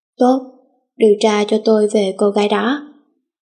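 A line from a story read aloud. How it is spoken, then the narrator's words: Cold reply. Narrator (Vietnamese): Sách lạnh lùng đáp lại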